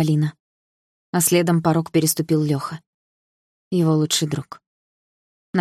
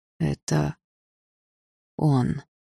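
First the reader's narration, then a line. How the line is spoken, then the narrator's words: Quiet speech. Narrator (Russian): тихо сказал Лёха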